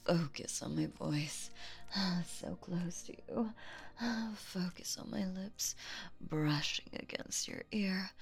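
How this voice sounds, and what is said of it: Close breathy whisper. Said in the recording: “Whispering so close to you. My hot breathing running over your face.”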